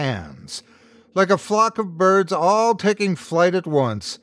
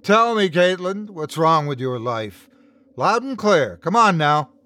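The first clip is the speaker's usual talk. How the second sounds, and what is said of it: Booming character voice. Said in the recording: “in his booming voice.”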